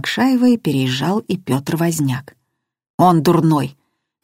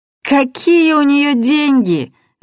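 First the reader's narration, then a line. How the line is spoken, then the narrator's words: Bursting laughter. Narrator (Russian): Расхохоталась Светлана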